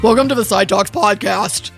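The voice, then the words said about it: Low, gruff funny voice. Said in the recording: “you went low ... You're kind of like a gruffer version of the Micro Machines guy.”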